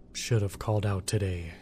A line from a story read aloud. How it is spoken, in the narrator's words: he sighed to himself